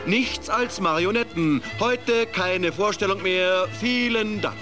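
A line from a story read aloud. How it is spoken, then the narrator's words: Puppeteer calling out. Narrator (German): rief der Puppenspieler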